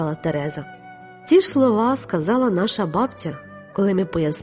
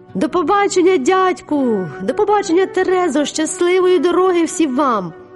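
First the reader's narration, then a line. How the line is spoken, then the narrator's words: Shouted. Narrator (Ukrainian): закричала Паула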